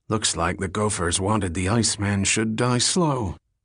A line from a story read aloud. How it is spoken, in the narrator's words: someone muttered